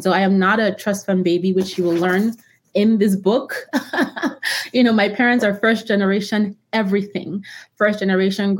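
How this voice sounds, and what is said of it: Immigrant's foreign accent. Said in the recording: “I'm an immigrant myself, as you can hear from my accent.”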